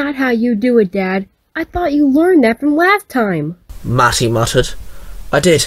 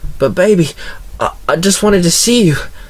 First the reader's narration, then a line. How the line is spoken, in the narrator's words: Tyler gasped